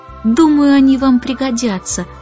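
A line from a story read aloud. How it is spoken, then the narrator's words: Sighing. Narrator (Russian): вздохнул Майкл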